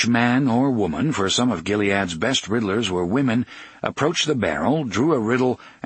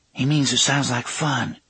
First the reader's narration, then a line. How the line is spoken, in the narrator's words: Susanna said quietly